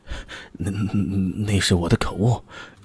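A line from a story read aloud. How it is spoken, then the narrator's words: Nervous trembling voice. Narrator (Chinese): 沈义军抹了抹头上的汗珠，颤声的说道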